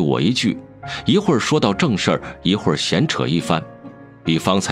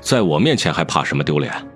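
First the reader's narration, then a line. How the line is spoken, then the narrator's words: Plain. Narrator (Chinese): 孟瑶说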